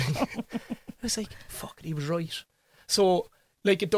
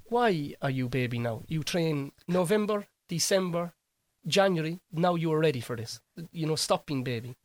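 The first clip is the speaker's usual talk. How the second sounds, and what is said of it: Put-on Polish accent. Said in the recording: “I appreciate your Polish accent.”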